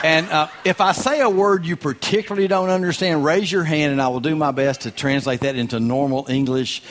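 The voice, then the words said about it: Strong regional accent, not local. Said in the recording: “I'm definitely not from around here... I do apologize for my accent. I do sound like this. I do say reckon and ain't and y'all.”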